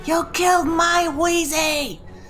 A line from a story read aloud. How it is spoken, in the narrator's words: She's gonna scream really loud